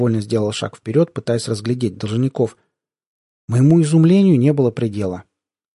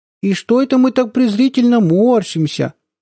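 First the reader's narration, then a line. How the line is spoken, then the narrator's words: Sudden baby-talk squeak. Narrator (Russian): сюсюкающим голоском вдруг пропищал Хохошуткин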